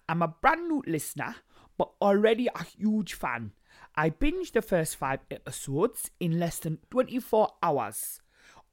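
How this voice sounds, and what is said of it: Put-on Newcastle Geordie accent. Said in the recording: “Newcastle ... This is really hard accent”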